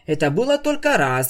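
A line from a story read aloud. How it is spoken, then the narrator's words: Indignant. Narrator (Russian): возмущенно тряхнула гривой единорожка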